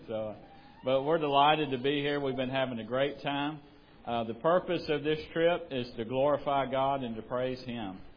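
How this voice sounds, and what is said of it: Southern American accent. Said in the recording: “y'all may have a little trouble with my accent ... you're probably having trouble with my accent too”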